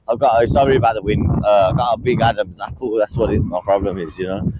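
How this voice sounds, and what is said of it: Light English accent. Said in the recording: “the English accent, I normally speak quite light ... you're lucky because English is a cool accent”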